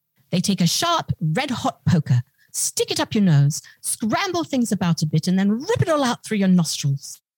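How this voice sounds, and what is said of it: Prim English accent. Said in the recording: “I'm going to try to do this in my best prim English accent”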